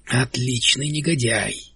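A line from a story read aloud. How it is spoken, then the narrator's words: Young man muttering. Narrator (Russian): пробормотал юноша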